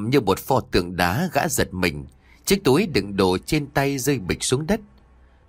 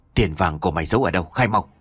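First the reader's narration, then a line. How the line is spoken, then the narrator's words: Whispered question. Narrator (Vietnamese): tên ăn mày thì thầm hỏi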